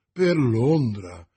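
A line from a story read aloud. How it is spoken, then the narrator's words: Exclaimed. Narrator (Italian): esclamò Porthos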